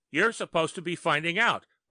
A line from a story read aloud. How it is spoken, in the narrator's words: Murphy yelled